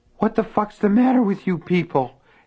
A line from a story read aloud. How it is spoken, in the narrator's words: Henry gasped raggedly